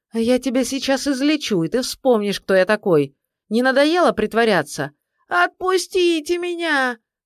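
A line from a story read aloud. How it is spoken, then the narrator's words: Shouting. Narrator (Russian): кричал Лука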